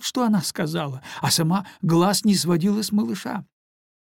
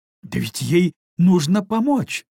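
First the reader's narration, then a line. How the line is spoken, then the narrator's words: Exclamation. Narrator (Russian): воскликнула маркиза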